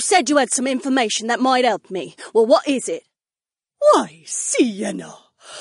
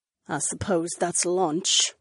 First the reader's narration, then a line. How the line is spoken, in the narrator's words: Sienna said in a grim tone